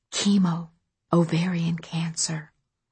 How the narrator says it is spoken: whispered Katrin

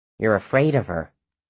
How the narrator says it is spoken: Willa said softly

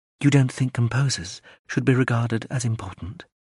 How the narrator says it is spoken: She asked, gently chiding

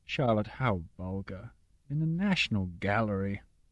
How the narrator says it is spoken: Papa said sadly

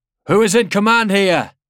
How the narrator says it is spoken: He shouted

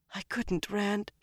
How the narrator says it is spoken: she whispered

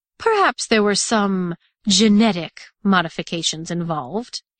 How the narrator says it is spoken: he finished the statement with another chuckle, like she'd caught him in a guilty pleasure

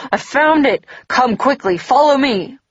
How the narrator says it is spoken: panting excitedly, exclaimed

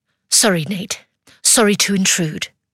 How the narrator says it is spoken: In a hushed but stern tone, she says

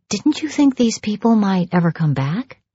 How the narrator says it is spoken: I whispered

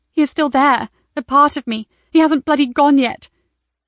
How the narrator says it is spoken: whimpered to herself

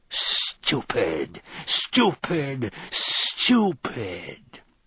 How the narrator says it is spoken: he hissed

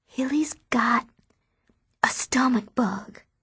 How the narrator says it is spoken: I whisper

